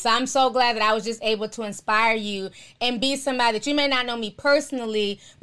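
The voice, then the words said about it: Tearful, strained voice. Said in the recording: “losing my voice and tearing up”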